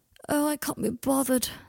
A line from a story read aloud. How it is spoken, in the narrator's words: said Draco, yawning